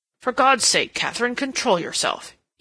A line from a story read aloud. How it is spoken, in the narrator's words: he cried